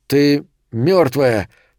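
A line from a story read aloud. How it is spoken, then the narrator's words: Strained effortful speech. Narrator (Russian): сказал Томми, и усилие, потребовавшееся, чтобы заговорить, выдавило пот на его щеках и лбу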